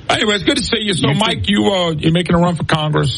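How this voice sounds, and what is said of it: Regional Southern Louisiana accent. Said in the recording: “You don't sound like a redneck like me, though... I never lost what I call my accent... it's gotten back thicker”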